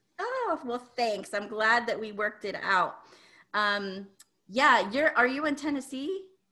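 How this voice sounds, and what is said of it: Slightly altered, stuffy voice. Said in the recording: “my voice sounds a little bit different. I'm having a little allergy day”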